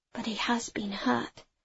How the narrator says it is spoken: I whispered

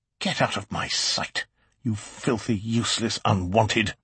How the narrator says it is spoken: He spat the words out like icicles

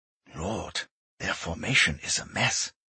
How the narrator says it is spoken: Jürgen whispered

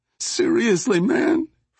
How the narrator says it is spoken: Flaco whined

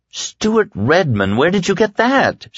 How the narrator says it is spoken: she asked, happily surprised

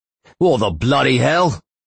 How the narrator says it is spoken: shouted the man in a thick English accent

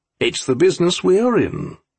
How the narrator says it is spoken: said calmly

